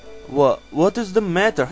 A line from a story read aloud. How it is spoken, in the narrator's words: stammered aghast